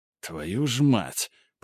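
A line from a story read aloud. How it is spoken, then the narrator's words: Muttered. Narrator (Russian): пробормотал Грубер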